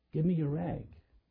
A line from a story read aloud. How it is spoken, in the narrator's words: said so gently